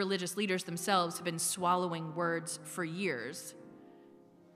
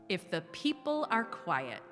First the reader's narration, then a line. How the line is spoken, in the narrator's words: said